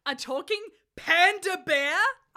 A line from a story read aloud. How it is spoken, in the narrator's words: I shouted furiously